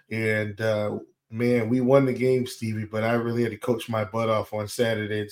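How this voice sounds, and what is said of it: Slightly hoarse voice. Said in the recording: “I am a little hoarse after the big game ... my voice is not where it usually is ... my lack of enthusiasm vocally”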